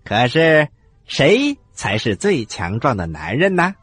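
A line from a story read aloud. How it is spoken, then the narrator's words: Old woman asking loudly. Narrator (Chinese): 鼠姥姥大声的问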